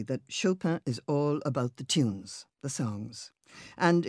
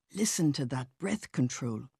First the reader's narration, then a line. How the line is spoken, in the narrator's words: my mother would whisper